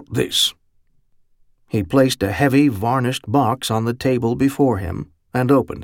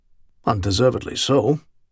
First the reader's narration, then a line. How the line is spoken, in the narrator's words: Pine Hollow murmured